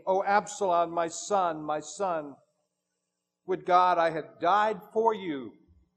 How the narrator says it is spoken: David exclaimed

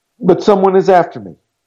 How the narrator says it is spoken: called out

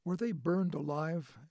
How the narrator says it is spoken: Ingrid asked, her voice quavering

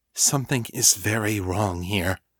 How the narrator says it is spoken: whispered

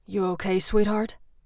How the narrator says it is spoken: His rumbling voice

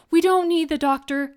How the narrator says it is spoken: I pleaded

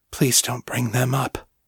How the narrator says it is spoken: Danny whispered

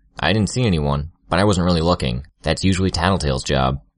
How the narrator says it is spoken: Regent replied

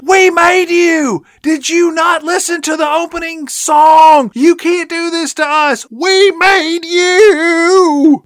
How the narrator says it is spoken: she screams out

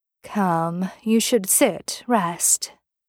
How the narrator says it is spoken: Misha said, his voice artificially soft

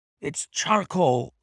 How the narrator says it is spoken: he cried

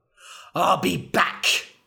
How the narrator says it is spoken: cried

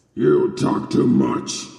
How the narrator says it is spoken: he grumbled

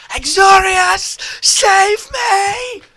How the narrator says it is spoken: Umastil ... shriek

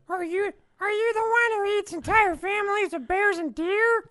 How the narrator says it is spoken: Theodore asked in a timid voice

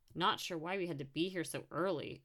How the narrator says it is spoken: a trumpeter muttered

